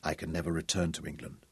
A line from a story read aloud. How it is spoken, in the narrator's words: he said softly